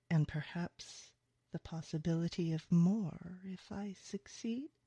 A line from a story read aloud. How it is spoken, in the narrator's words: he purrs